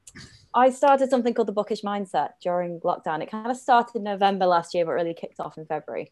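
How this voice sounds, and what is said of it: Northern English accent. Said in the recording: “The accent's from up north. So if it gets a little bit dodgy at times, you can't understand”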